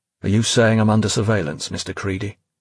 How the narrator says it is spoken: Finch asked flatly, fed up now with Creedy's game-playing

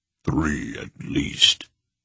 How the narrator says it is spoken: Barak said grimly

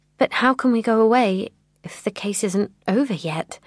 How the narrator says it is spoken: I stammered

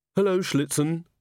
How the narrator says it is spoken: she said calmly

